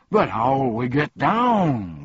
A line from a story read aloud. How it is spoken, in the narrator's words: groaned the humbug